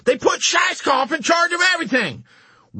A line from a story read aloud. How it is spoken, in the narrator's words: Wintergreen was shrieking with rage and panic